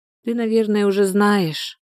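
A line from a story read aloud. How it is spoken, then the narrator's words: Sighing. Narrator (Russian): вздохнула Соня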